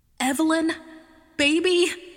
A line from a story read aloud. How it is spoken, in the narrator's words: she shouted